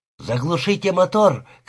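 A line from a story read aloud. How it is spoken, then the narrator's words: Shouted. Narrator (Russian): крикнула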